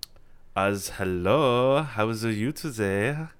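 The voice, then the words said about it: Mock German accent. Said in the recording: “my infamous voice where you just put a Z in front of everything ... That just sounds like a German.”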